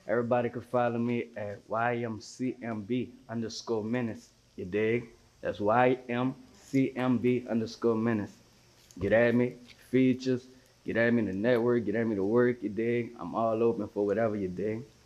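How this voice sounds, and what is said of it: Regional American accent. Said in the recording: “I love your accent. I can listen to you talk all day.”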